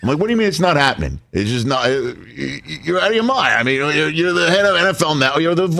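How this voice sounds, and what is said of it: Usual voice. Nothing is said of it.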